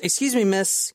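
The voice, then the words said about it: Slight put-on British accent. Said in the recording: “in kind of a British Canadian accent... British accent... No, a little less. It's like a slight British accent. And or Canadian. British or Canadian. Very slight... There you go.”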